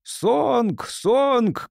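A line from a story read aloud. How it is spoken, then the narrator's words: Shouted. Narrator (Russian): кричал Гелбрейт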